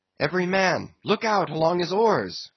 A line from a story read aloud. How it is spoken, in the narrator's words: cried Starbuck